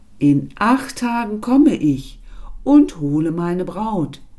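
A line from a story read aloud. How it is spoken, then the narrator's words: Animal calling after. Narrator (German): Das Tier rief hintendrein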